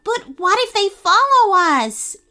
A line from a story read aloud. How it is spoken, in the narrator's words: Abigail shouted back